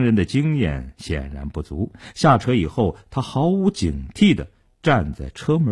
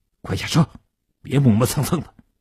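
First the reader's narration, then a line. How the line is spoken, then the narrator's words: Low harsh command. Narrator (Chinese): 年轻人对叶成坚低声地喝道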